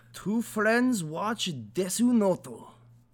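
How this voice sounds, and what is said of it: Slight put-on Russian accent. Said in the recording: “in a slightly Russian accent ... I'm terrible with accents”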